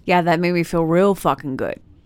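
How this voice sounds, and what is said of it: Sarcastic tone. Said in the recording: “That was sarcasm.”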